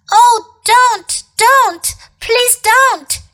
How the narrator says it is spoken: shouted Edmund

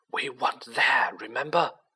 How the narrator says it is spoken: Harry muttered

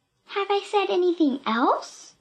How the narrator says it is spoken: Pippi Pippi asked sweetly

